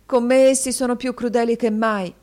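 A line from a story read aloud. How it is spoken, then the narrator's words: Sobbing boy. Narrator (Italian): singhiozzò il ragazzo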